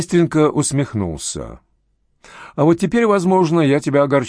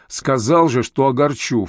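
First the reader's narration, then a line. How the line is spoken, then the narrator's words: Snort. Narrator (Russian): фыркнул опер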